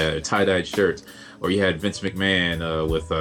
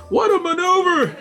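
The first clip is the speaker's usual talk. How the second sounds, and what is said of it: Imitates another person's voice. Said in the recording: “the classic McMahon impersonation”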